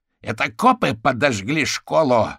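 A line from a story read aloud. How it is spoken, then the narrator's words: Roaring into phone. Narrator (Russian): взревел в трубку гусеница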